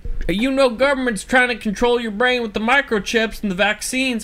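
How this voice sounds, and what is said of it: Put-on redneck-style accent. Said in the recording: “I don't know why I chose that accent ... The Icelandic people? ... And rednecks.”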